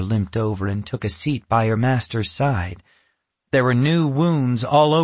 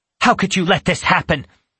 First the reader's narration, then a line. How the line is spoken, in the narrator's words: Natasha snapped